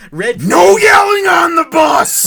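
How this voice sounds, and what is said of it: Yelling impression of a movie bus driver. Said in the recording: “the Chris Farley bus driver from Billy Madison”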